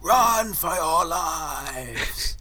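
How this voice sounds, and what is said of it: Dramatic shouted line like Denethor. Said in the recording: “Full on Denethor from Lord of the Rings. ... Very dramatic voice the sergeant had. It really cut through the sound of the shells.”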